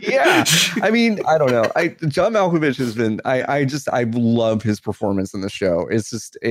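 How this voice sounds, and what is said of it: Usual voice. Nothing is said of it.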